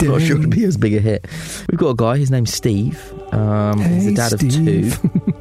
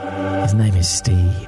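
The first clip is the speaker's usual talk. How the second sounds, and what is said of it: Creepy, sexy put-on voice. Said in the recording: “your creepy sexy voice”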